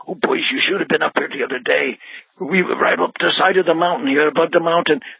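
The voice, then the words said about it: Strong Polish accent impression. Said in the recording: “he spoke in a strong Polish accent”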